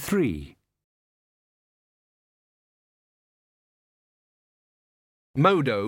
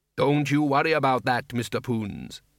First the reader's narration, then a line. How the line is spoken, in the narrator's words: said the dwarf cheerfully